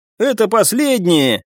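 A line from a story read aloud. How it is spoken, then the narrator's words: Encouraging shout. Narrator (Russian): крикнул я, чтобы приободрить смертельно уставших товарищей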